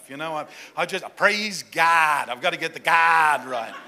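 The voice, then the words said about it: Put-on Southern drawl. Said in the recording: “I got to get that southern drawl happening”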